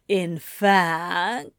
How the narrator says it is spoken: he drawled

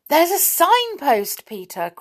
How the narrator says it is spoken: cried Mary suddenly

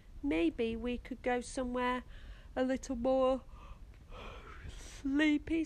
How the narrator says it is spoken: said Grandad with a chuckle

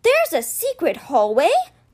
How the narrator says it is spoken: Clive cried out

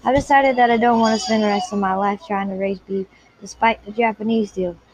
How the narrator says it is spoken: he said

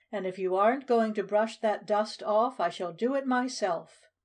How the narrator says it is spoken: Ladybug cried

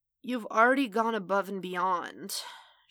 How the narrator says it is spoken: she croaked

